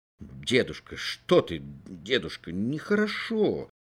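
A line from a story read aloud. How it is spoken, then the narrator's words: Muttered. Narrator (Russian): бормотал он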